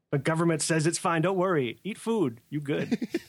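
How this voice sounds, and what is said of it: Put-on stereotyped Japanese accent. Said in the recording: “I'm just going into my racist Japanese accent now.”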